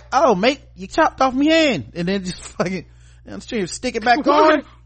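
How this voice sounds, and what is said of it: Put-on Australian accent, not convincing. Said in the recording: “What accent was that? ... That's my Australian accent. ... I can't do y'all's accents.”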